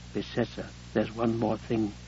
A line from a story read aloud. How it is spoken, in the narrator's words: The phone said quietly